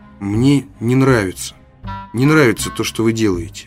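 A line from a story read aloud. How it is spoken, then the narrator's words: Timid reply. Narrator (Russian): робко ответил Оливер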